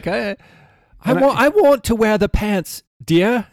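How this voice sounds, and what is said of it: Put-on British accent. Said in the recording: “That's more of a British accent.”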